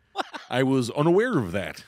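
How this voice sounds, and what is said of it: Imitates another person's voice. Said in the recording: “my Harvey Keitel impression.”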